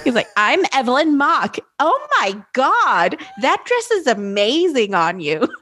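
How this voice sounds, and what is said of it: Camp gay man's voice. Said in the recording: “when he does an impression of me, he pretends to be a gay man... Apparently I sound like an old gay man.”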